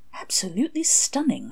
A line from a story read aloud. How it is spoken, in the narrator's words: murmured, admiring the greenery